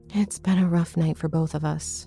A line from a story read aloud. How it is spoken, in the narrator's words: sighed